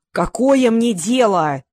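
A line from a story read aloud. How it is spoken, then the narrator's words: Yelling. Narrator (Russian): Заорал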